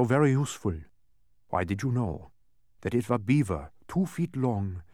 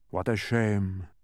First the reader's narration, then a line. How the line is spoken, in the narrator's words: sighed the dodecahedron